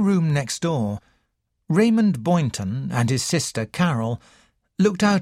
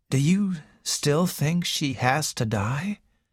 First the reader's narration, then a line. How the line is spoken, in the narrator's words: asked Raymond quietly